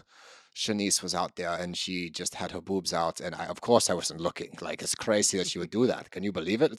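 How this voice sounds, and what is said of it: Put-on German accent. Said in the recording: “Doesn't even sound like that. ... That's pretty close. ... The German accent. ... I think I nailed it.”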